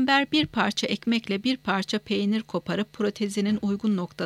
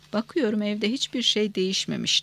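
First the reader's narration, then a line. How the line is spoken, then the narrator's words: Plain. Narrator (Turkish): dedi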